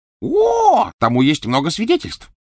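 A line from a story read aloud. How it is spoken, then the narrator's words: Exclamation. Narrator (Russian): воскликнул Ксенофилиус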